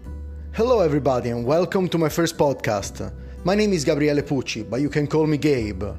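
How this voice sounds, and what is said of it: Italian accent. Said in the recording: “my funny accent ... I'm Italian”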